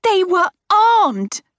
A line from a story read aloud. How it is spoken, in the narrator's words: I shout